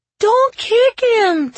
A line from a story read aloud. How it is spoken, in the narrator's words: Timby cried